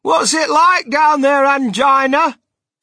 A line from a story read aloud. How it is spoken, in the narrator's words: He called out